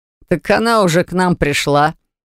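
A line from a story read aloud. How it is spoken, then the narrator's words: Chuckle, then serious. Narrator (Russian): хохотнул Дафф, но сразу посерьезнел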